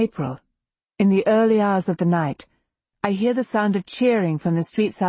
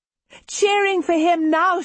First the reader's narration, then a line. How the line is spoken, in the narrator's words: she exclaims